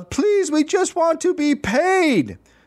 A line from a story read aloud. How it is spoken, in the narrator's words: In the back, a teacher yelled